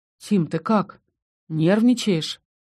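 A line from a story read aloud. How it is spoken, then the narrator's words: Sighing. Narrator (Russian): Я вздохнула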